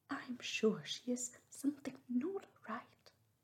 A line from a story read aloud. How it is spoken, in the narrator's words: they cried, one and all